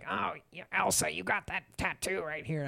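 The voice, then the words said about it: Imitates another person's voice. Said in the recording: “that's my Spiegler accent ... It was pretty good.”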